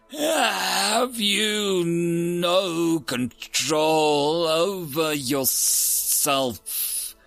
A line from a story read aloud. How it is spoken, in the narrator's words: His voice rasped in common galactic, sounding as ethereal and strained as the hum of the air purifiers of the Fritz